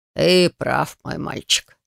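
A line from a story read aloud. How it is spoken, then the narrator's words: Shaman's sighing voice. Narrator (Russian): кивнул шаман и вздохнул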